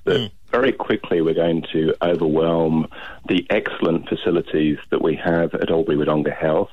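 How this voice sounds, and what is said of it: English accent. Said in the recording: “I can hear you've got an English accent”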